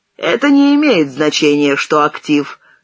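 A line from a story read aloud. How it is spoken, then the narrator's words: Stern, clipped. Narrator (Russian): строго чеканил Сенечка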